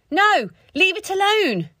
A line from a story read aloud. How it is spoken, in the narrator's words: Sophie shouted